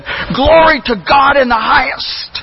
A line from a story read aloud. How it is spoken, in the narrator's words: in frustration and in bitterness, he shouted to the sky and said